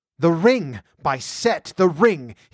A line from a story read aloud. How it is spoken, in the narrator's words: shrieked